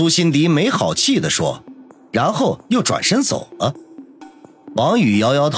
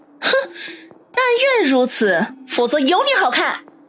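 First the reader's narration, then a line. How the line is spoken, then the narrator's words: Laughing. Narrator (Chinese): 王宇笑道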